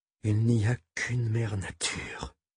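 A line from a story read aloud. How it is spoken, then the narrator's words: Breathless whisper. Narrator (French): avait-elle dit dans un souffle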